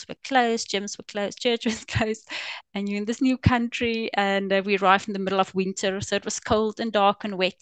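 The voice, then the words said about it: Afrikaans South African English accent. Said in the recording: “as you can probably tell from my accent, we are Afrikaans speaking.”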